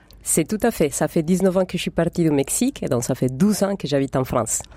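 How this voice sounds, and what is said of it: Mexican accent in French. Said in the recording (French): “votre bel accent. Vous venez du Mexique”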